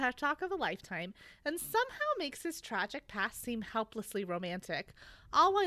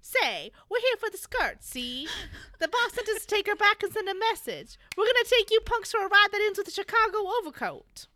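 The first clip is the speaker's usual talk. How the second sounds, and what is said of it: Old-time gangster voice. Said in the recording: “I feel like you should do that voice instead of me ... a good Bugsy voice”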